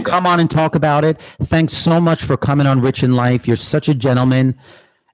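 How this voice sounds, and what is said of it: Light New York accent. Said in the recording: “I like that New York twang, but it's not too heavy.”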